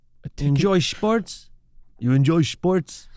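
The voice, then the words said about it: Put-on German accent. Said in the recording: “the German accent is developing.”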